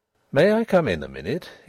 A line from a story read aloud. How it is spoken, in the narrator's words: he asked, in a purely business tone